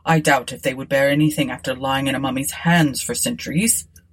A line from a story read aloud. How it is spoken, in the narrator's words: replied Forsyth gravely